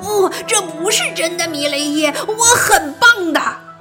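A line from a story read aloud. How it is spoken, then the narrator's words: Anguished shout. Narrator (Chinese): 这种想法让他痛苦不安，他想对他喊道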